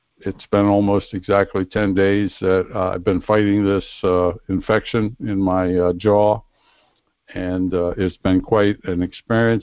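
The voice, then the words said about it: Voice not fully recovered from illness. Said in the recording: “my voice is not back 100%, but I'm going to tell you it's a hell of a lot better”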